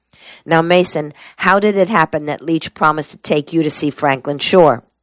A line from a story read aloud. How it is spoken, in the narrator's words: Mason's voice rasped with sudden impatience